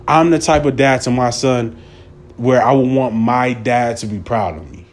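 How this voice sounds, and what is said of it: Emotional, choked-up voice. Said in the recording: “I'm trying not to get choked up here.”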